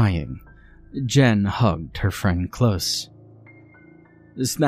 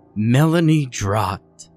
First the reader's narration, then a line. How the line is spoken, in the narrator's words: the woman rasped